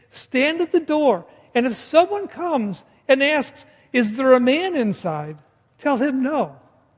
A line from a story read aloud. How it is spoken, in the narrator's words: the frightened Sisera resorts to pleading to Jael, saying